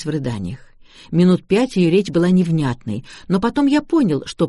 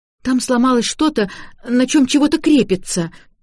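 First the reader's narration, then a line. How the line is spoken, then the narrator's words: Babbling. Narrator (Russian): лепетала Шарлотта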